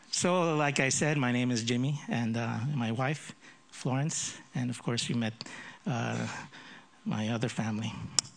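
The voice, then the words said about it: Filipino speaker, slight American accent. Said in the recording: “it's not the common Filipino accent. I grew up in the States when I was young, so that's why I have a bit of an American accent. But this is not the typical Filipino accent.”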